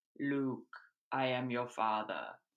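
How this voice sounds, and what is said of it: Deep Darth Vader movie villain voice. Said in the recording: “doing a Darth Vader impression”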